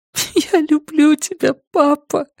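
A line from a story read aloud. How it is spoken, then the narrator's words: Sobbing. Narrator (Russian): всхлипывая, проговорила Люми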